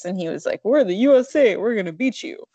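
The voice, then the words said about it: Imitates another person's voice, cartoonish. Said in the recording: “that's his accent ... you kind of sounded like Yogi Bear”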